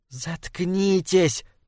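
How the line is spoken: Hiss. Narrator (Russian): прошипела Беттани

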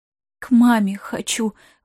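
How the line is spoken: Muffled breathy girl's voice. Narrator (Russian): выдохнула девчонка, пряча лицо в коленях

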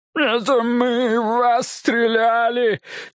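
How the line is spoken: Near-tearful moan. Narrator (Russian): чуть не плача простонал Билл

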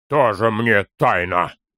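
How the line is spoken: Dismissive snort. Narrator (Russian): Фыркнул Торин

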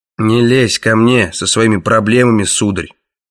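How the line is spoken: Grumbling. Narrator (Russian): пробурчал Краннан

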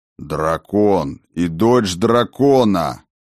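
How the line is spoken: Growled. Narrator (Russian): рыкнул Сфайрат

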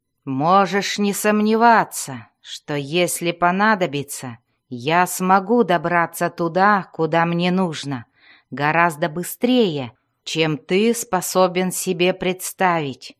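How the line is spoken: Growling. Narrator (Russian): прорычал он

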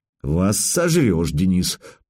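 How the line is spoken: Through gritted teeth. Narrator (Russian): процедил представитель

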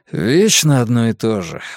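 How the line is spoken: Sighing. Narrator (Russian): вздохнул Ульф

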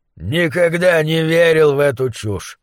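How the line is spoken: Grumbled. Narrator (Russian): проворчал Гуляш

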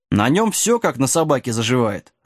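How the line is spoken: Irritated. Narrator (Russian): раздраженно ответил черный конь

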